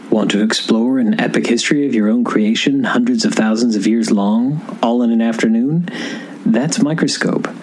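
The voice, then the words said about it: Calm public-radio announcer voice. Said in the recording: “in your best NPR voice”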